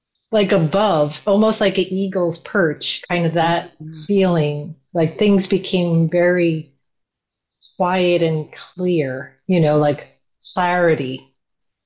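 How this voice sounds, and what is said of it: New York accent. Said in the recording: “That New York accent.”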